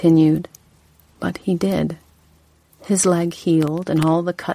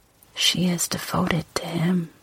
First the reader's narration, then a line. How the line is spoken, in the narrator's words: she whispered